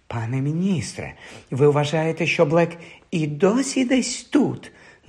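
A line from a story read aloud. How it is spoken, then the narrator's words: Frightened whisper. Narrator (Ukrainian): настрахано прошепотіла мадам Розмерта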